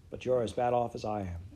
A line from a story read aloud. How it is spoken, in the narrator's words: said wearily